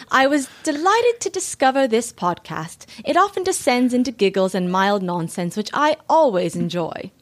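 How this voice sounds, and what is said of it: Put-on British accent, Mary Poppins. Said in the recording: “You have to do it in a British accent ... That sounds like Mary Poppins.”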